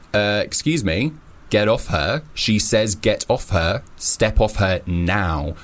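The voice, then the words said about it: Stern, deliberately deep voice. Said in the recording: “put on a stern voice ... put on my deep voice”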